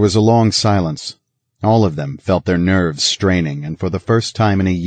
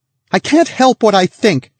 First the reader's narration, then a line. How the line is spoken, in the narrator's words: she cried out suddenly